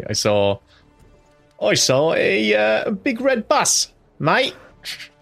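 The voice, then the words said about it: Deliberately bad put-on accent. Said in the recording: “That was my accent. ... I'm renowned for my inability to do accents.”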